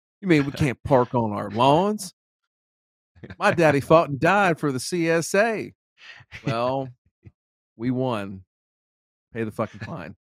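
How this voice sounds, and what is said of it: Put-on Southern US accent. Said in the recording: “read that in the Southern accent”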